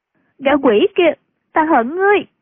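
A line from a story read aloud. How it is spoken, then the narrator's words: Sobbing. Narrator (Vietnamese): ôm mặt khóc nức nở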